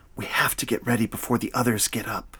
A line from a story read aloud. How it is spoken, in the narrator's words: Noah whispered